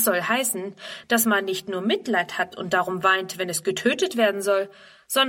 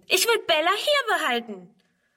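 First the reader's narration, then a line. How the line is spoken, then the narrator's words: Shouting. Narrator (German): schreit Friedrun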